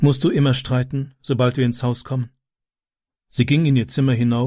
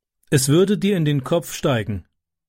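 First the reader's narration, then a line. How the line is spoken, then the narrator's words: Plain. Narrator (German): sagte Tyke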